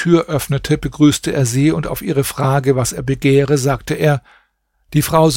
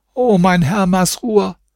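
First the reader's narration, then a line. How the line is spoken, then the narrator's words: Old woman calling out. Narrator (German): rief die Alte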